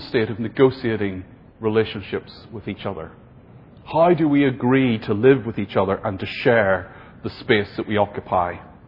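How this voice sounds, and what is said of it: Irish accent. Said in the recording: “my Irish accent affects how I say the word power”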